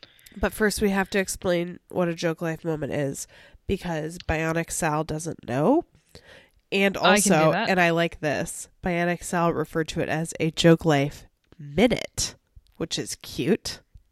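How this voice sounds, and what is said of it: Losing voice, hoarse. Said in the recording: “my voice is gone”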